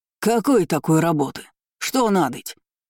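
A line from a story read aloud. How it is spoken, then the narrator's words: Sudden bark from behind. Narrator (Russian): гаркнули вдруг за спиной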